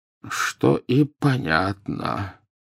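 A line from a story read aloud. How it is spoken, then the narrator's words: Muttered. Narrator (Russian): пробормотал Дамблдор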